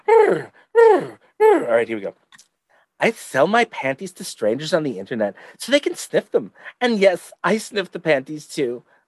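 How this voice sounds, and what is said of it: Exaggerated lisping put-on voice. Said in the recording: “should I put on my lispy voice”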